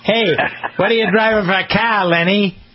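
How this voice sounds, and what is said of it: Put-on New England accent. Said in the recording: “Let me see if I can do my New England accent. Everybody want my New England accent? ... Got to change the R's to A's and A's to R's.”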